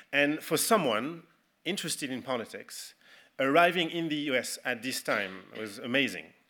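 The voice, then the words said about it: French accent. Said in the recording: “My French accent was even stronger than this.”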